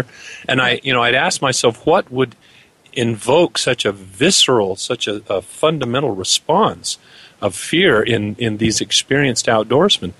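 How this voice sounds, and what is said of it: Voice in poor condition. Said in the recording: “pardon me, my voice is really bad tonight”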